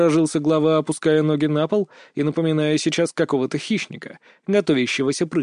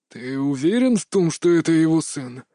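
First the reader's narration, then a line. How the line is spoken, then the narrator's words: Hoarse question. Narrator (Russian): хриплым голосом уточнил Таканашита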